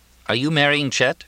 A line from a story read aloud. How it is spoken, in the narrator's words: Jack asked